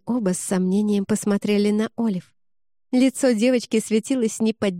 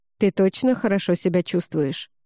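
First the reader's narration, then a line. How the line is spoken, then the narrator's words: Plain. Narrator (Russian): спросил он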